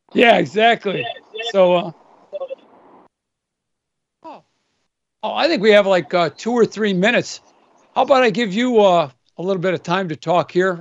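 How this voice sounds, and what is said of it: Strained, fading hoarse voice. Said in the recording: “I'm losing my voice, it seems.”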